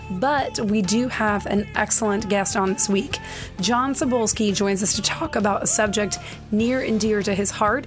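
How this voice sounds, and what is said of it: Voice sounds rough and unwell. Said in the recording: “my voice sounds terrible”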